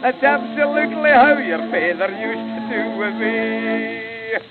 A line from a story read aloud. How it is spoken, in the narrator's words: how she laughed, and then said she